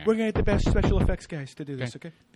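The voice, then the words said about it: Imitates another person's voice, poorly. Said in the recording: “We have the worst Trump impression. ... I'm only doing it like 10 levels deep from other comedians' Trump impression.”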